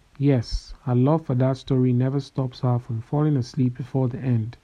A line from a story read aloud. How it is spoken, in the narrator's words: chuckled